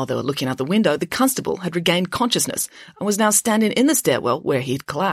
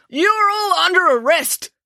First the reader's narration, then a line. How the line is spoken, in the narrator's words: bellowed Constable Pike